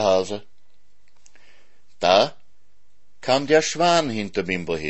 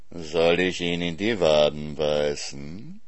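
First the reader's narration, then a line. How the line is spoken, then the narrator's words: Purring fox. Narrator (German): schnurrte der Fuchs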